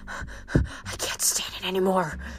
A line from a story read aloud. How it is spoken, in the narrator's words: he whispered